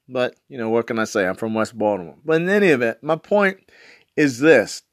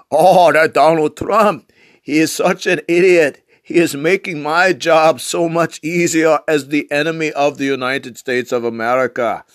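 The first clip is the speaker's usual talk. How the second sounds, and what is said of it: Poor put-on Russian accent. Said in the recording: “my Russian accent sucks”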